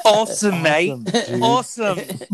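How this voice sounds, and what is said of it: Put-on English accent. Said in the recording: “That's better. That's better. He did an English.”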